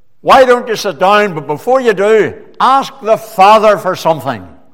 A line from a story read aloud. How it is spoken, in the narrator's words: he shouted out